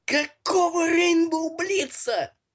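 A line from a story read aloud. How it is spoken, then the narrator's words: Shouted. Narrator (Russian): выкрикнул Миша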